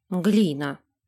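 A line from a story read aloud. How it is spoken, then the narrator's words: Mutter. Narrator (Russian): буркнула она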